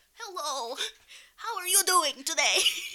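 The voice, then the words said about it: Old-person voice, Russian-sounding accent. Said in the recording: “think old people all sound like... ... So you're gonna have, like, a Russian accent?”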